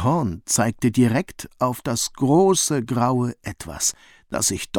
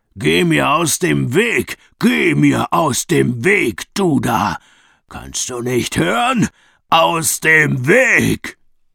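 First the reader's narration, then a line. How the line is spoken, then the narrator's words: Bellowing at full volume. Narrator (German): brüllte er mit voller Lautstärke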